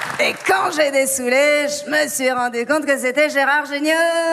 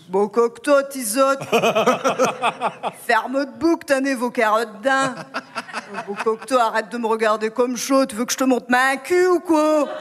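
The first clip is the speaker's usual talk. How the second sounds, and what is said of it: Put-on Ch'ti northern French accent. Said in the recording (French): “je retrouve mon accent ch'ti et mon côté beauf”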